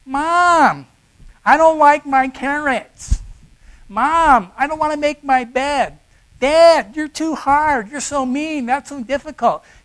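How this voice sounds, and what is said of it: Whiny childlike voice. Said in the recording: “there's this whiny kind of twang to their voice”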